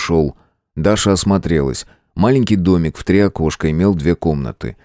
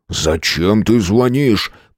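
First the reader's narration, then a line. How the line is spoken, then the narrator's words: Hissing. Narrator (Russian): прошипел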